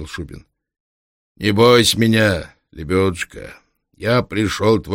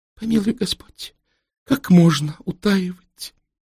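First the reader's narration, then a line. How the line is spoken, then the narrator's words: Barely audible babble. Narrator (Russian): еле слышно пролепетала княжна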